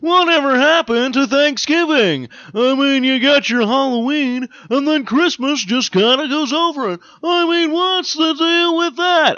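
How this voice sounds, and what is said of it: Poor imitation of another person's voice. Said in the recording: “I feel like this is becoming a Jerry Seinfeld bit right now ... It's probably a really horrible Jerry Seinfeld impersonation.”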